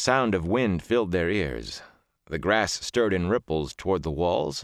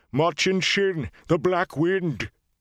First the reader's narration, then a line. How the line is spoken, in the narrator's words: Loyal cried out